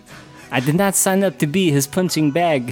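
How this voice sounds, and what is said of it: Impression of young Jean-Claude Van Damme. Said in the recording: “Sounds exactly like JCVD. ... That's a really good impression”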